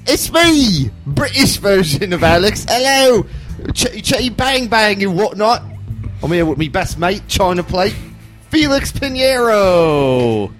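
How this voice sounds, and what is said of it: Poor put-on British accent. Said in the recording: “the terrible British accent”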